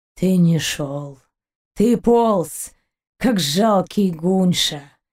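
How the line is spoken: Near moan. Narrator (Russian): Почти простонал Гайн

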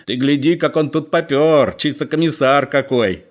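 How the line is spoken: Old man laughing. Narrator (Russian): Старик засмеялся

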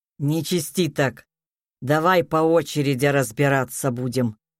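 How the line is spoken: Displeased grumble. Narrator (Russian): недовольно пробурчал Сергей Викторович

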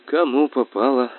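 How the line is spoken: Sighing. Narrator (Russian): вздохнула она

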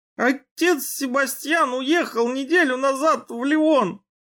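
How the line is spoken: Tearful moan. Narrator (Russian): Размазывая слезы по щекам, простонал Алькальд

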